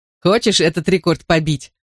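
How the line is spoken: Sung through laughter. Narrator (Russian): пропел Тони сквозь смех

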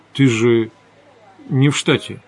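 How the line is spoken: Confused, bewildered. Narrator (Russian): растерянно сказал я

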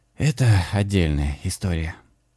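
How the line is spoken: Sighing. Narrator (Russian): вздохнул Лёша

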